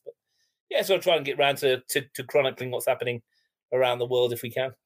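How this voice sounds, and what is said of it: English accent. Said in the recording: “your accent sort of says it as well. There's a little bit of English blood there”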